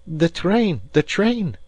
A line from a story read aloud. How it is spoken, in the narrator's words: cried he